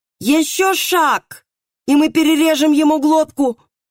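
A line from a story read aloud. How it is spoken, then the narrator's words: Yelling. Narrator (Russian): орал судебный пристав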